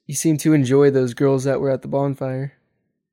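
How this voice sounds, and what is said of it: Sarcastic tone. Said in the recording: “that was sarcastic. ... sarcasm.”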